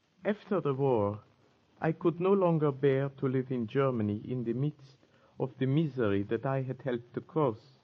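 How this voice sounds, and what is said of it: German accent. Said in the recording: “But your accent, you are German, aren't you?”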